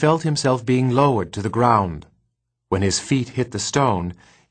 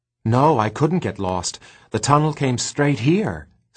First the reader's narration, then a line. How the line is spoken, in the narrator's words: said Gregor happily